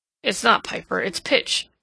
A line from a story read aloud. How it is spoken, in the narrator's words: Edward grunted